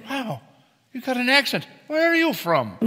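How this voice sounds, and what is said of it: Put-on Irish accent. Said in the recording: “Where's your accent from? ... I'm what you might call a warm Irish pot”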